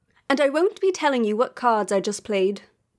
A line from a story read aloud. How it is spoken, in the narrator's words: Danbury replied haughtily